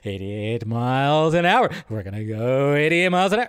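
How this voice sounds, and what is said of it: Jeff Goldblum impression. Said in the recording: “my Jeff Goldblum impression. Not that great.”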